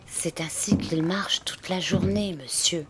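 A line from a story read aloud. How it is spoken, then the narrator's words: Whispered. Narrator (French): chuchota Poole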